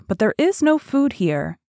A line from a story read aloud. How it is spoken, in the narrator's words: said Father Wolf stiffly